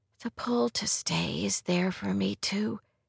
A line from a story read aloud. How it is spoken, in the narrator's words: she whispered